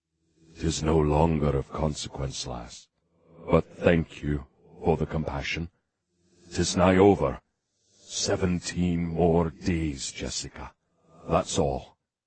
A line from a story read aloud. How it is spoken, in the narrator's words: he saying softly